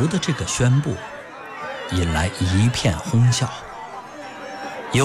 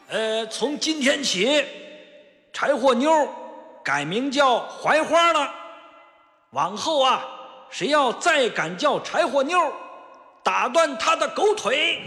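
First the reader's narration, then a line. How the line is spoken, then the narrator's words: Loud announcement. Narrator (Chinese): 范福大声宣布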